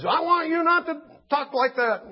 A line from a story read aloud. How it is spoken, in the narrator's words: yelling at them